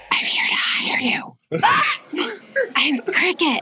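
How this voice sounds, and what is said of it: Quiet whispering voice. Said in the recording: “doing the whole being real quiet thing? ... Why are you whispering? ... because she's whispering.”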